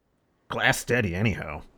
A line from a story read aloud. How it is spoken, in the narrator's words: he muttered, seeming more satisfied